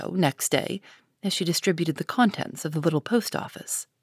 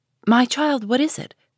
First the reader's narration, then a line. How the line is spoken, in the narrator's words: cried her mother